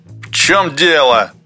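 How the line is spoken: Somewhat irritated inquiry. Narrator (Russian): несколько раздраженно осведомился геолог

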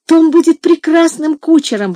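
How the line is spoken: Exclaiming. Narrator (Russian): воскликнула Ева

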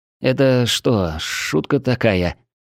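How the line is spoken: Trembling whisper. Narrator (Russian): дрожащим голосом прошептал я

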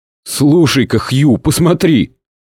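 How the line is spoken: Frightened whisper. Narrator (Russian): испуганным шепотом произнес вдруг Костлявый

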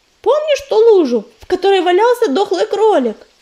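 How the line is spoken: Shout. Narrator (Russian): крикнула она

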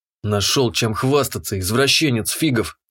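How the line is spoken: Muttering. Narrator (Russian): буркнул я

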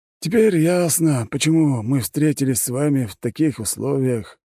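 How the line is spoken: Sad wry chuckle. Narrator (Russian): грустно усмехнулся Смородинов

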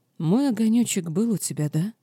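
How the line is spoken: Sad question. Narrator (Russian): печально спросила ведьма

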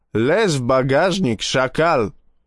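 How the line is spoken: Yelling, strong accent. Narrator (Russian): заорал он с явственным акцентом

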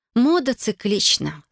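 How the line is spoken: Calm explanation. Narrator (Russian): спокойно пояснил я

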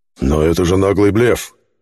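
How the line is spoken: Indignant. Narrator (Russian): возмутился хранитель

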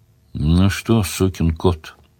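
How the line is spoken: Affectionate question. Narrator (Russian): ласково спросил Сварог

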